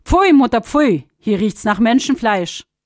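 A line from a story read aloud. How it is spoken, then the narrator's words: The sun calls out immediately. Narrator (German): Die Sonne rief sogleich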